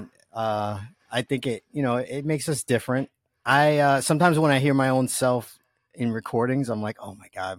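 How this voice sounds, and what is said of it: Strong New York accent. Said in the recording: “You probably hear my New York accent, and I don't even try to hide it ... my accent is so strong”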